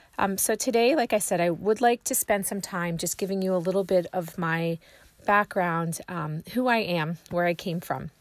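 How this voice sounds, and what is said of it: Raspy, slightly hoarse voice. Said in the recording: “my voice is still a little raspy ... I seem to have caught a cold ... sound a little hoarse”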